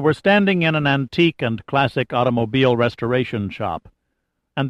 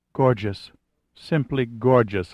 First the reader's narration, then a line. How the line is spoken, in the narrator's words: Lily murmured